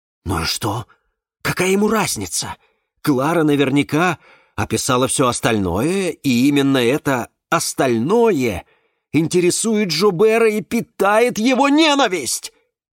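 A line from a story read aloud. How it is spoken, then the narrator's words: Exclamation. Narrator (Russian): воскликнул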